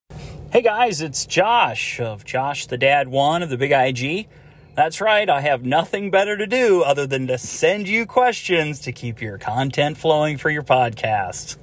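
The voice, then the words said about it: Pleasant, polished radio-style voice. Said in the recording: “he's got a lovely voice. ... He's got a great radio voice ... he's got a good voice for it”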